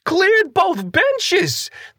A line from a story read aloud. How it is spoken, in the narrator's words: The manta squealed in agreement, gleeful in the retelling